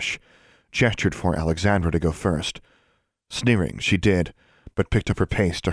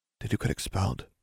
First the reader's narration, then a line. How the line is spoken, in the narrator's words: she asked quietly